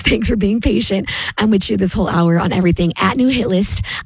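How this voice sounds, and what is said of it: Hoarse voice. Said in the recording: “I'm still getting through this laryngitis.”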